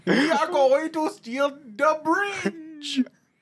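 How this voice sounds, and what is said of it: Romanian-accented cartoon villain voice. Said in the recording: “do a Gru impression ... He's Romanian, brother.”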